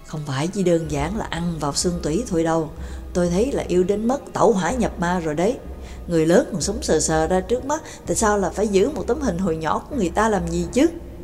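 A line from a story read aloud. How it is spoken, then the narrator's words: Whispered reply. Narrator (Vietnamese): Nhạc Dương cũng thì thào đáp lại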